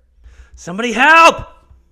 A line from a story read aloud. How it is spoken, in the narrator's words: he shouts